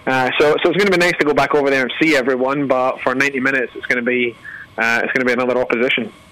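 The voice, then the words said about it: Scottish accent. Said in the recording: “accent by way of Scotland as well ... we've not southernized that accent”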